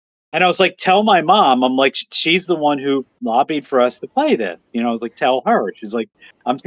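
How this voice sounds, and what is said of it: Usual voice. Nothing is said of it.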